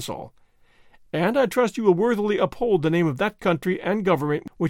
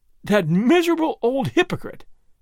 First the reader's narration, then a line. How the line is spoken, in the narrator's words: he cried, half angry and half laughing